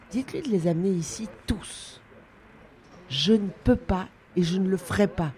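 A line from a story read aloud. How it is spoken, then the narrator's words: Exclaimed. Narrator (French): s'exclama Sylvie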